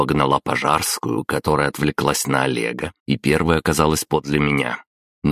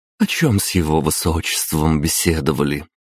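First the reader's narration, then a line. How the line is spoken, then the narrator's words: Cooing. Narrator (Russian): проворковала она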